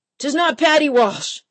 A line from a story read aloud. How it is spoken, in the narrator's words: Mitchell hollered